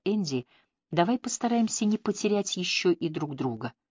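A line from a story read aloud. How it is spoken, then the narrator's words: Quiet. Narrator (Russian): она тихо проговорила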